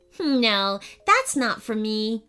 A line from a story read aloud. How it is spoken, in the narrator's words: giggled Eden